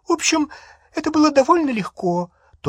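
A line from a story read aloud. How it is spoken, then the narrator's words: Thin high voice. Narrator (Russian): тонким голосом сообщила Гермиона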